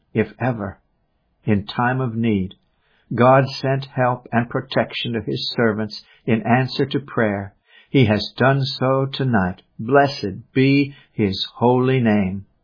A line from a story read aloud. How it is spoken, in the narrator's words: Matheson exclaimed